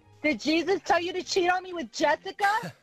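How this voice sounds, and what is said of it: Angry screaming. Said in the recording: “Why are you screaming at me? ... Why are you yelling at me?”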